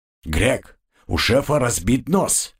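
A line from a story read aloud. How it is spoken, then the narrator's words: Loud. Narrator (Russian): громко произнес он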